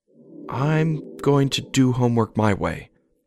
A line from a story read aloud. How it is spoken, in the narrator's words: he muttered